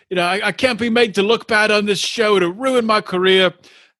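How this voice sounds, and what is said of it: Unconvincing put-on British accent. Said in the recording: “that accent was more South American than when you were talking about Sinjin. ... An outstanding British accent. ... That wasn't British. That was straight up South American, South African, not South American.”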